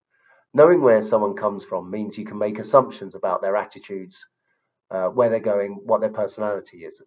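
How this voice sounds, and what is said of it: South London accent. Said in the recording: “I come from South London. Maybe you can tell from my accent.”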